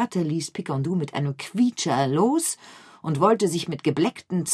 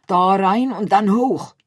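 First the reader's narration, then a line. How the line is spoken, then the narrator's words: Called out. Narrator (German): rief er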